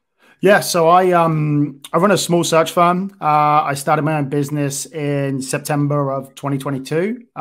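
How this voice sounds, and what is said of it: Non-American accent. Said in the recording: “we can tell you're not a, an American by the accent”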